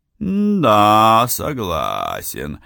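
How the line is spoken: Thoughtful drawl. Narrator (Russian): протянул он, о чем-то размышляя

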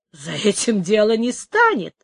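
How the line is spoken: Laughing. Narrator (Russian): сказал, смеясь, Тито

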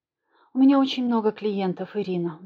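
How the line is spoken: Sighing. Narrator (Russian): вздохнула Наталья

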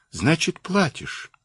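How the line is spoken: Quiet gentle question. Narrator (Russian): Генерал тихо так и ласково спросил

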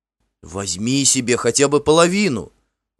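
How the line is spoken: Exclaiming. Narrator (Russian): воскликнул Финн

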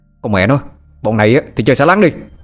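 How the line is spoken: Loud shout. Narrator (Vietnamese): Nó quát lớn

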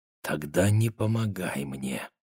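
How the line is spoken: Whisper. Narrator (Russian): прошептала она

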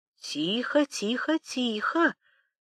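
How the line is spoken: Sudden whisper. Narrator (Russian): вдруг зашептала Пелагея

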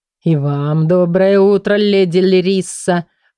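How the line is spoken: Drawling. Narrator (Russian): протянул он

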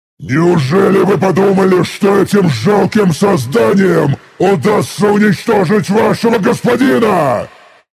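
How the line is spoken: Furious roar. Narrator (Russian): Яростно взревел

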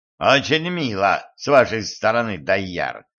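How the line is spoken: Mocking voice. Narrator (Russian): Голос его звучал насмешливо

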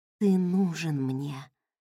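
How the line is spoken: Moaning. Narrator (Russian): простонала

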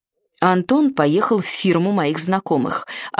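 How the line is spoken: Cold tone. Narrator (Russian): ответила она холодным тоном

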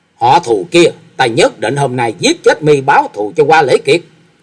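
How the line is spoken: Furious tearful shout. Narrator (Vietnamese): giận dữ, gạt nước mắt nhễ nhãi, mà thét lớn

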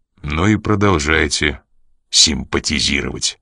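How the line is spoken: Gloomy curt retort. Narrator (Russian): мрачно отрезал Коридон

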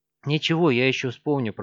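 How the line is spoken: Muttering. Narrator (Russian): пробормотал полицейский

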